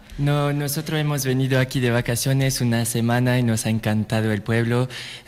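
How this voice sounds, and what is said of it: French accent speaking Spanish. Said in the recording (Spanish): “no es que sea de aquí de cerca, es de Francia... lo vamos a saber un poco por su acento”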